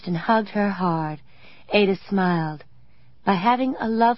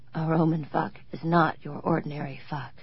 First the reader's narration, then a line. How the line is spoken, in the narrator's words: Joe whispered later, when his breathing slowed